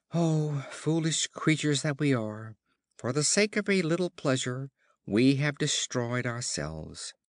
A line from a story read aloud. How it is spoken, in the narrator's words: Just as they were expiring, they exclaimed